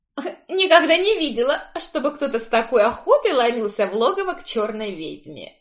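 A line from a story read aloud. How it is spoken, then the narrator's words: Chuckling, cousin. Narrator (Russian): хохотнула кузина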